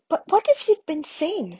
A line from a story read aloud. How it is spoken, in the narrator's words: said Hermione anxiously